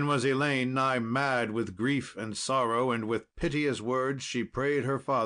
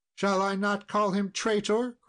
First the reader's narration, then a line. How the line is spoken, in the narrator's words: cried she